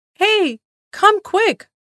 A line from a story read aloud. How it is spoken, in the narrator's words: Matti yelled to his friends